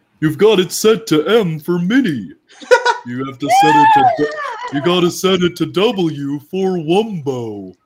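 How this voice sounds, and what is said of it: Patrick Star cartoon character impression. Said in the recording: “my Patrick impression ... that's really good.”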